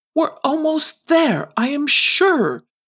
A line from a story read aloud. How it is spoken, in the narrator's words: pleaded Sir Ratsalot